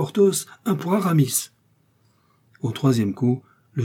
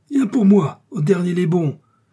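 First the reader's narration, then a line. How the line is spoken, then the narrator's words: Furious exclamation. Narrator (French): s'écria D'Artagnan furieux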